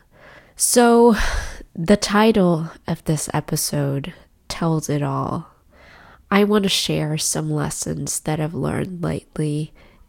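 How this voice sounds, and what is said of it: Sick-sounding voice. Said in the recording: “as you can tell by my voice, I'm still a little bit sick”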